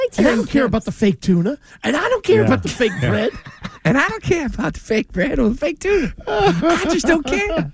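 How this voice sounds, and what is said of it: Imitates another person's voice. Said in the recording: “The best imitation of fake Glenn Ordway actually is from the real Glenn Ordway... When he tries to do fake Glenn Ordway voice”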